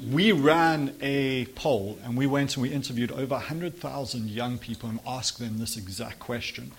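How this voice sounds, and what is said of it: South African accent. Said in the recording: “I don't know if you can tell by the accent, but that's where I'm from ... South Africa”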